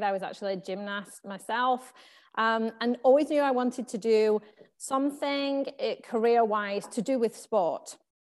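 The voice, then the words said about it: English accent. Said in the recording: “you can probably tell from my accent, I'm from England.”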